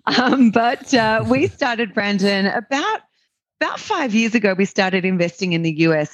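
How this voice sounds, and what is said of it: Australian accent. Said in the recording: “as your listeners can probably tell by my accent, I'm an Australian”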